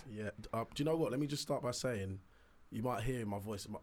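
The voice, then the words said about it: Raspy, strained voice. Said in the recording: “my voice is suffering and I might be a little bit raspy ... My voice is a bit raspy”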